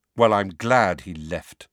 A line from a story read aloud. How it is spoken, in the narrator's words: Harry said coldly